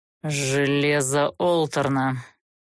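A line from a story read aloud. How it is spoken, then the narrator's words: Grim serpent hiss. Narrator (Russian): мрачно процедил змей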